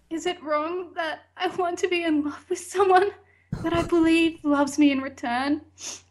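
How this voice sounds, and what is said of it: Reading in a sad voice. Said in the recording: “Do it in a sad voice? ... Do it in a sad voice.”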